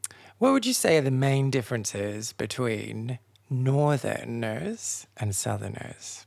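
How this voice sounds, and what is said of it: Usual voice. Nothing is said of it.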